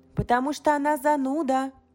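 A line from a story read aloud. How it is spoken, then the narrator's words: Quick retort. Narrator (Russian): парировала Сив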